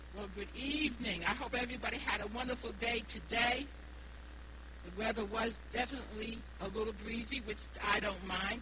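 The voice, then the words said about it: Slight New England accent. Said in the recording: “I do have an accent. My accent is from New England. I was born and raised in Rhode Island, so I do have a little bit of an accent”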